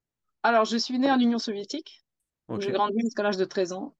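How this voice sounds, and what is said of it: Slight foreign accent. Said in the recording (French): “un léger accent”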